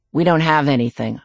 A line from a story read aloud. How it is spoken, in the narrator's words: I say flatly